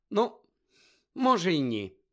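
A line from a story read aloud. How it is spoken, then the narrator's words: Sigh. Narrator (Ukrainian): зітхнула вона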